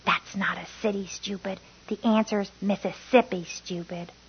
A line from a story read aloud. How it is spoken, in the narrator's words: someone hissed